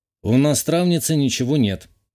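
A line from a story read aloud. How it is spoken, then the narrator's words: Gloomy reply. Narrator (Russian): мрачно ответил я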